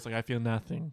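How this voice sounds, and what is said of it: Put-on vampire accent. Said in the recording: “That was a great vampire accent.”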